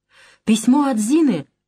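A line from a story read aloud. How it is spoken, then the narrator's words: Joyful exclamation. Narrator (Russian): радостно вскрикивает она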